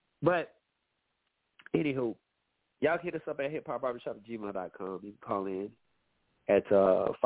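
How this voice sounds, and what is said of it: Nasal, congested voice. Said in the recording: “I'm a little nasally... I know y'all can hear it in my voice,... it's allergy season for me... I'll be sounding this, you know, a little nasally sometimes”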